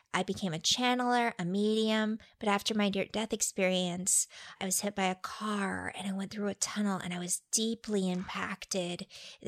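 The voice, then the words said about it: Imitates another person's voice. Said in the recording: “A really good impersonation ... you're channeling Kimberly Meredith.”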